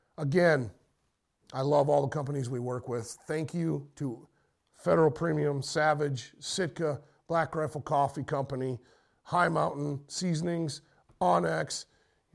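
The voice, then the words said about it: Hoarse voice. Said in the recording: “tell my voice is getting a little hoarse.”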